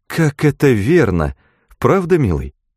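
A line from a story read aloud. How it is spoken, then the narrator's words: Joyful agreement. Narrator (Russian): Все радостно соглашались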